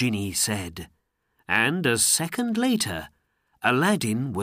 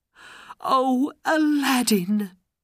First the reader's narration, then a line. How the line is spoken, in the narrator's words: she cried